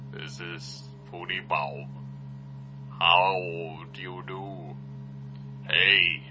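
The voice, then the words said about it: Put-on silly character voice. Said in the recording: “I'm trying a new voice ... I'm trying to talk different.”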